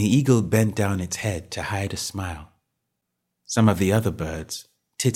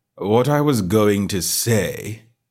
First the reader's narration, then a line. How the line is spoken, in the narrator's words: said the Dodo, in an offended tone